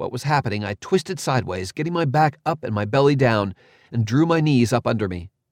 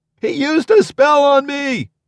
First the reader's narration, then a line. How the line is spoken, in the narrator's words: someone screamed